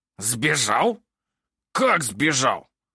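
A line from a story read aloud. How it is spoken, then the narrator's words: Hissed. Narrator (Russian): Прошипел Снивель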